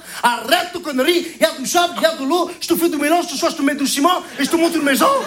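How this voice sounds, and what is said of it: Comic Portuguese accent in French. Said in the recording (French): “il maîtrise l'accent portugais comme personne”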